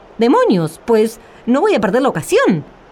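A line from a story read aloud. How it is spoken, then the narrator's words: Exclamation. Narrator (Spanish): exclamó Juan el Bobo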